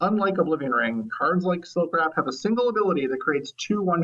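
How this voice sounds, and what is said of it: Usual voice. Nothing is said of it.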